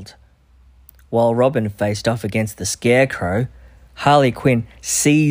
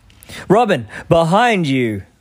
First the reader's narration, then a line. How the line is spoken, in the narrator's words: Batman yelled